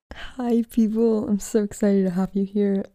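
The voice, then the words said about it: Excited, energetic voice. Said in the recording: “As you can probably tell from my voice, I am very excited.”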